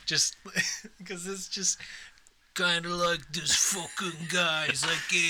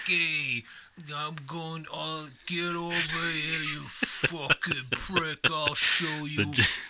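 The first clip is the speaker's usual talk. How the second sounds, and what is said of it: Fake New York Italian accent. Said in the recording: “my typical go-to accent is kind of like fake New York. Italian guy”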